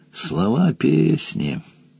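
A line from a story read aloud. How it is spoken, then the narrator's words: Grumbling mutter. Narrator (Russian): буркнул Яльвар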